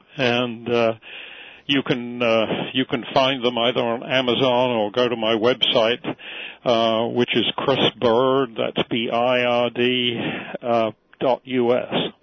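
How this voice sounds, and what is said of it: English accent. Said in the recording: “That's interesting, .us in an English accent.”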